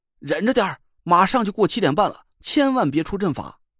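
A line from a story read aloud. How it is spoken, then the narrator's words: Anxious shout. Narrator (Chinese): 我急得大喊了一声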